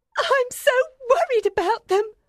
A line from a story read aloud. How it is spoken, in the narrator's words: Miss Pross said tearfully